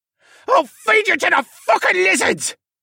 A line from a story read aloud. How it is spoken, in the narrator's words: Mohawk screamed